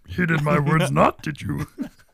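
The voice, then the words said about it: Imitates Yoda's character voice. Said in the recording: “Can you do the voice? Can you do the voice?”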